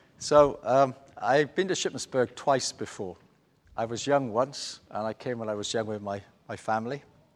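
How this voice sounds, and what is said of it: Welsh accent. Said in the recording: “you get used to my voice because it's got a Welsh accent to it”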